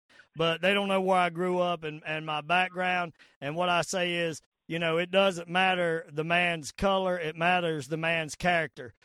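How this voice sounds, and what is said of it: Southern American accent. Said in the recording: “I know I got a southern accent”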